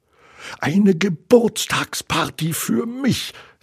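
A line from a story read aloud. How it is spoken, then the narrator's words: Excited inner thought. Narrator (German): dachte aufgeregt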